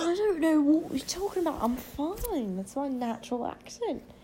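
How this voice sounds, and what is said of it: Put-on British accent. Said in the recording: “your British accent”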